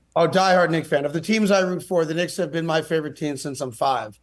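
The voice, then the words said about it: Native New York accent. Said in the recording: “your accent, obviously you're a native New Yorker”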